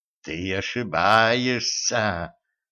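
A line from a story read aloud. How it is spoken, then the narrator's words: Hissed. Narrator (Russian): прошипела Зейнаб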